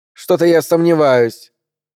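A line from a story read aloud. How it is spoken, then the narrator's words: Cold remark. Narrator (Russian): холодно проронила она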